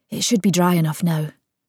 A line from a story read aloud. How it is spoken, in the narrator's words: she muttered